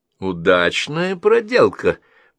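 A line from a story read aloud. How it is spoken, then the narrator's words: Cheerful. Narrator (Russian): бодро отозвался Джон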